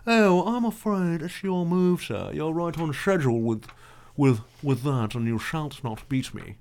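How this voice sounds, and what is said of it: Put-on proper English accent. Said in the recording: “You have the proper English accent”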